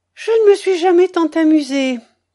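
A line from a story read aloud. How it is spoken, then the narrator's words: Exclaimed. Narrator (French): s'exclama-t-elle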